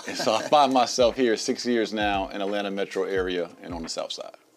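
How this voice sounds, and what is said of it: New Jersey accent. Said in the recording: “Jersey. I can hear it in your voice.”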